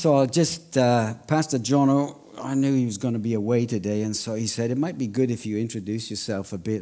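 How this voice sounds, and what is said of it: Welsh accent. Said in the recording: “I wasn't born in Australia, as you're going to tell straight away from the accent. ... Are you Irish? Then Scottish, then from Pakistan ... I'm Welsh.”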